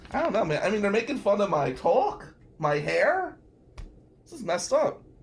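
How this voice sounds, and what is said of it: New Jersey accent. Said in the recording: “I do have a Jersey accent”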